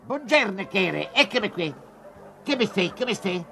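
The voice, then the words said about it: Imitates another person's voice. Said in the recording (Italian): “nell'imitazione di Lino Banfi”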